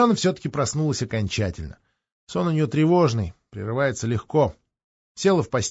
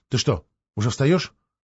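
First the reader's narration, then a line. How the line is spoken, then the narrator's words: Frightened question. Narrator (Russian): Алена испуганно спросила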